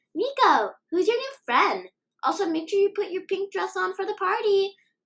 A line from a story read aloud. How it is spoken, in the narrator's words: a young lady shouted